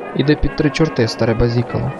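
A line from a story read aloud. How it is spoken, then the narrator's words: Plain. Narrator (Ukrainian): відповів Равік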